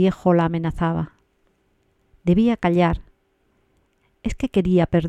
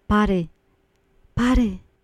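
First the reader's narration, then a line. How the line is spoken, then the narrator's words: Pleading voice. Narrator (Spanish): dijo con voz suplicante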